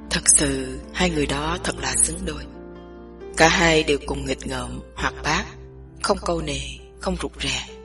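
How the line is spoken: Low hoarse male voice. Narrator (Vietnamese): Chàng ngưng bặt lại, một lúc sau mới nói tiếp bằng một giọng trầm thấp và khàn đục

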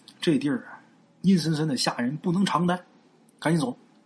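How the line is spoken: Mumbling. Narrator (Chinese): 嘴里边还嘟囔着

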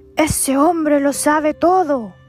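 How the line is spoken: Terrified shouting. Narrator (Spanish): todo aterrorizado salió de ahí gritando

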